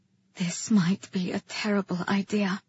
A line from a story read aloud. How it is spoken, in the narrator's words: I whispered to him